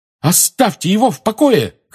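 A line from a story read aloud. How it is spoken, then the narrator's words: Shouting. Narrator (Russian): крикнула Лили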